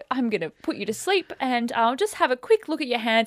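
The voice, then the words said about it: Put-on accent quoting someone. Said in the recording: “I did an accent.”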